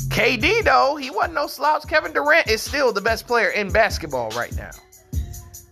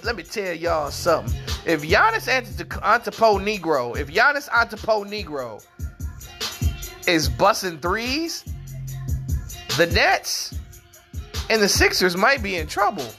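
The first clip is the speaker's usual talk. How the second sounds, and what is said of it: Nino Brown impression. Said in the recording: “In my Nino Brown voice,”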